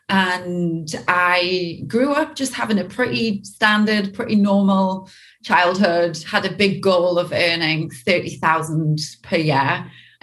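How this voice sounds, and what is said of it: British Newcastle accent. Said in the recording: “my dodgy accent ... I'm originally from the UK, from a place called Newcastle”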